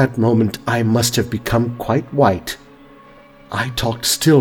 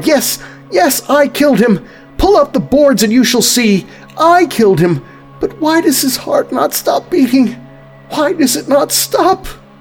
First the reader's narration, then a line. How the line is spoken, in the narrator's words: I cried